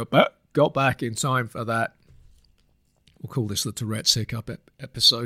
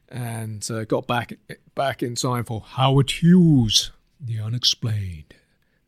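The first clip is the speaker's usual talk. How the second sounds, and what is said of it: Bad radio presenter impression. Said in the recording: “That was a bad impression.”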